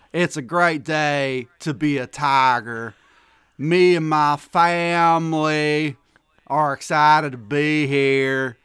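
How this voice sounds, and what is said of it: Fake Southern accent. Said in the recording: “I just wanted to do the Brian Kelly fake Southern accent”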